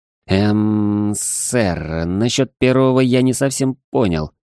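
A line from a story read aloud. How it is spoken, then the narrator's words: Embarrassed mumble. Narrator (Russian): промямлил я, стараясь не встречаться с его насмешливым взглядом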